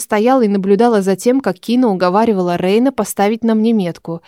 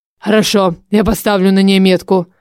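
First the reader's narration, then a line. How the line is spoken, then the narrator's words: Grim, through clenched teeth. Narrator (Russian): Рейн, стиснув зубы, мрачно сказал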